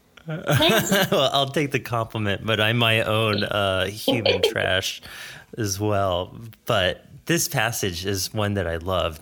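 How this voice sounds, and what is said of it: North American accent, nasal voice. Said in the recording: “my horrible American nasally voice ... hearing a North American accent”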